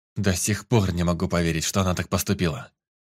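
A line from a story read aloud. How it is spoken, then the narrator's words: Exhaled words. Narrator (Russian): выдохнул Лоренс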